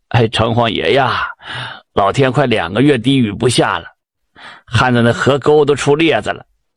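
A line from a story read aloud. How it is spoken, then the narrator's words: Low pleading voice. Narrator (Chinese): 有位庄稼人 低声就求告了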